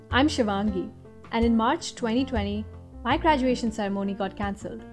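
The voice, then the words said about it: Indian accent. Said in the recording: “who is this girl with an Indian accent?”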